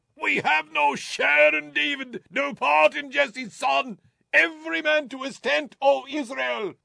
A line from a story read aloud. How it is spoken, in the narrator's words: He shouted